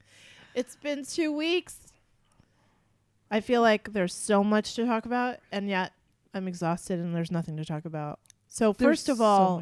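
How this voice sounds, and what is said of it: Sick, slightly off-sounding voice. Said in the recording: “I'm sick ... I feel a little fuzzy ... my voice is weird”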